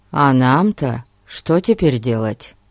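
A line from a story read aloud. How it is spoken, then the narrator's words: Plain. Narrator (Russian): спросил Пип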